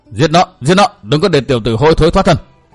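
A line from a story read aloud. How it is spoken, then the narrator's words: Crowd roaring shouts. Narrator (Vietnamese): Chúng hò hét vang dội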